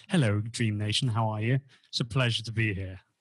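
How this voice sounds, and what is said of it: British accent. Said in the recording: “It's not as cool without an American accent ... Us Brits, we tend to make things a little boring ... I love the accent.”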